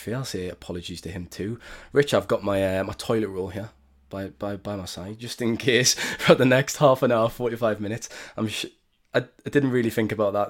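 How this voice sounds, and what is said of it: Congested, sniffly flu-affected voice. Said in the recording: “my voice is kind of give the impression that it's winter in Salford because I have got a bit of a flu at the moment ... excuse me if you hear any sniffles”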